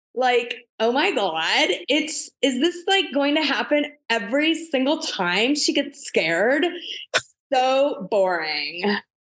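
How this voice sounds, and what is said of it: Put-on California accent. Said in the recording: “I could literally hear her California accent ... my version of a California accent goes a little like this”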